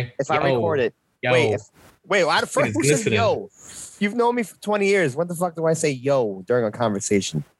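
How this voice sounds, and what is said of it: New York accent. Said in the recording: “with your New York accent.”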